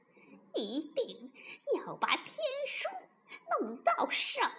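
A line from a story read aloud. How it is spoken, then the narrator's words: Sly sinister laugh. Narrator (Chinese): 老狐精奸笑着说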